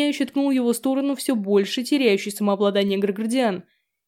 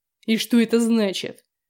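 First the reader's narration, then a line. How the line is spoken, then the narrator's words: Openly growling tyrant. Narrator (Russian): уже откровенно рычал деспот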